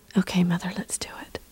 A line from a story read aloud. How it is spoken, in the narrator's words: I whispered